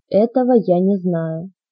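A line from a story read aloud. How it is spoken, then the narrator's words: Quick answer. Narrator (Russian): быстро ответил он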